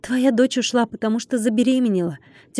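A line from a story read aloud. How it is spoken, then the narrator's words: Heavy-sighing reply. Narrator (Russian): тяжело вздохнув, ответил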